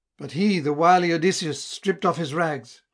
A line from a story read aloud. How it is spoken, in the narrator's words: exclaiming